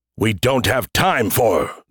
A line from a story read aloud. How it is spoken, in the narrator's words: the Verd snapped